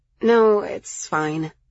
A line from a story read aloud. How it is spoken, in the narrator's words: I sighed